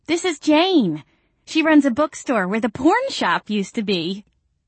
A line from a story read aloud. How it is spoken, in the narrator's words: Courtney Barrow squealed